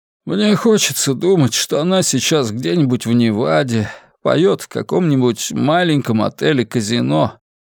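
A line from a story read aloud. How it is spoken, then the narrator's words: Sighing. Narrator (Russian): вздохнул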